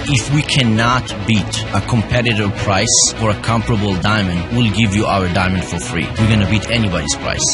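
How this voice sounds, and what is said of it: Foreign accent, not Southern American. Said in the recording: “My accent may sound different ... He may not sound like a Southerner ... grew up in the diamond cutting center of Tel Aviv”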